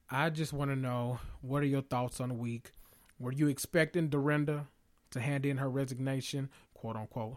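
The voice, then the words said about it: Strained voice, nearly gone. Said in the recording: “As you can hear my voice, my voice is almost gone.”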